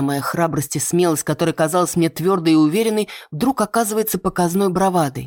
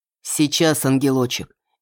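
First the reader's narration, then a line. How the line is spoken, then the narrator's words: Soft answer. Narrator (Russian): мягко отвечает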